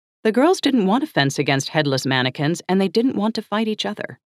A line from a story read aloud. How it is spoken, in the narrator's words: she said